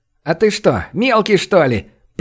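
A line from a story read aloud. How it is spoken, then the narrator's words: Man roaring with laughter. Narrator (Russian): прохохотал цыган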